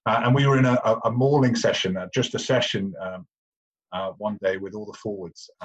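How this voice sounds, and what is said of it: Posh English accent. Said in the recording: “I've got a posh English accent”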